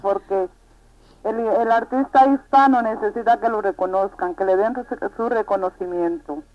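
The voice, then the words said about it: Spanish with Dominican-sounding accent. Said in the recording (Spanish): “tienes acento dominicana ... me han pegado bastante, el puertorriqueño, el dominicano”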